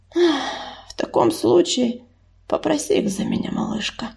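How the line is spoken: Sudden sigh. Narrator (Russian): неожиданно вздохнула Саша

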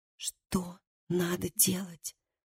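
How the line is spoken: Whispered question. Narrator (Russian): спросила она шепотом

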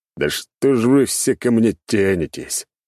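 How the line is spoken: Moaning. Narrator (Russian): простонал я

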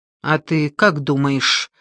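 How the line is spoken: Angry question. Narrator (Russian): сердито спросил он

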